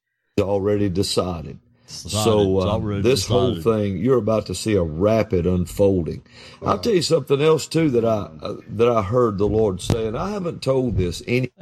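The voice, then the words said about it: Texas or Oklahoma accent. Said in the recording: “That sounds real Texas. ... That's a pure Texas or Oklahoma accent”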